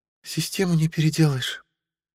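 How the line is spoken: Whisper. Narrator (Russian): прошептала Анна

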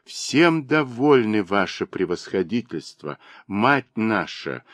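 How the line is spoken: Humble, abased tone. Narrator (Russian): униженным тоном сказала Сафрония

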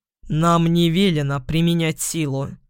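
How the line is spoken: Low husky voice. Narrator (Russian): послышался другой голос, низкий, с хрипотцой

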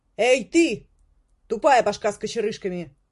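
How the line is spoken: Cook shouting. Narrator (Russian): крикнула повариха

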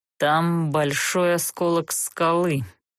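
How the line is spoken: Gloomy statement. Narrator (Russian): мрачно сообщил он Герту

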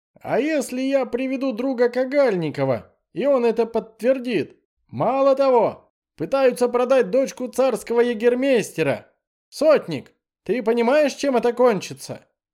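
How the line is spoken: Deliberately loud shouting. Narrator (Russian): Кричу специально громко

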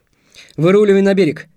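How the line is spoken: Shouted. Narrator (Russian): крикнул я Антону

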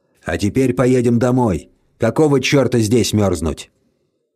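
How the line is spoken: Calm. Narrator (Russian): Альф спокойно сказал

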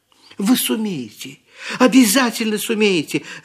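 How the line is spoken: Joyful cry. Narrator (Russian): радостно вскрикнула Элли

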